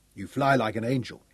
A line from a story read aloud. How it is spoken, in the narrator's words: said